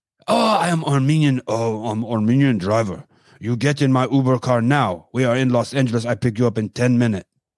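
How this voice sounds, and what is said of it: Stereotyped Armenian accent. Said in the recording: “I was going to mix my Asian accent, my Armenian, old Armenian, or any Middle Eastern guy ... Stereotypical”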